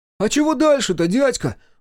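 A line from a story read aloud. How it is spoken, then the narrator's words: Exclamation. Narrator (Russian): воскликнул Максимка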